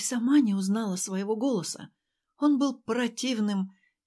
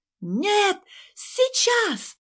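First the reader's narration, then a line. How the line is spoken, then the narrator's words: Sudden shrill shout. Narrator (Russian): Вдруг визгливо закричала в трубку Ася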